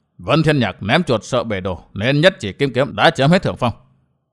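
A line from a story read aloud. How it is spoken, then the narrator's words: Lowered voice. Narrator (Vietnamese): Tinh Viên hạ giọng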